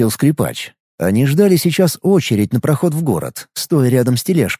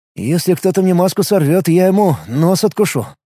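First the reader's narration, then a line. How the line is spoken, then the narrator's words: Gloomy. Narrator (Russian): мрачно сказал скрипач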